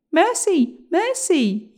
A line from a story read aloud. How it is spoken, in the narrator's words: cried